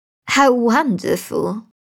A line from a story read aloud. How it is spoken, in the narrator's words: she exclaimed